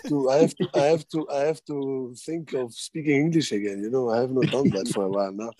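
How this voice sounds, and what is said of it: Foreign accent in English. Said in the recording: “You don't have to put on a sexy accent, you know. Just speak normal.”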